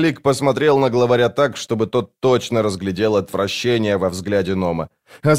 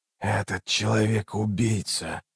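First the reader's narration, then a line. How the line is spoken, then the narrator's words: Hoarse rasp. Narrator (Russian): прохрипел Раллик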